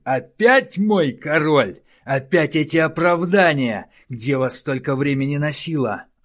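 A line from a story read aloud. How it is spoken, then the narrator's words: Shouting angrily. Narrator (Russian): орал Тардус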